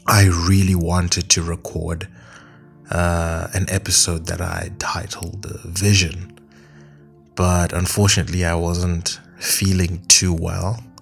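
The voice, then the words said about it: Voice sounds unwell. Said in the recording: “I'm still not very well, you can probably hear from my voice”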